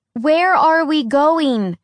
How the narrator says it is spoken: Alex yelled over the wind

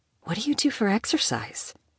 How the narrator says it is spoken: she whispered

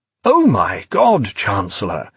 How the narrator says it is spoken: he exclaimed in surprise

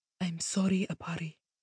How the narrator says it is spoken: Talandi murmured

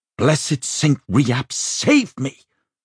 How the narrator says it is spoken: Rachel shrieked

